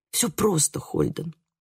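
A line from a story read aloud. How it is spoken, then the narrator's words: Whisper. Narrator (Russian): прошептала я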